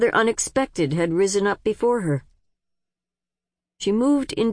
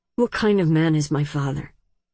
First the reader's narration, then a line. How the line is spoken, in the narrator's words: said in a rough, low voice